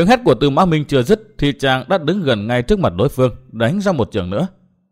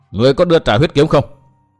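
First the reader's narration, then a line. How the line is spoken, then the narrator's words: Loud voice. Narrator (Vietnamese): Chàng lớn tiếng bảo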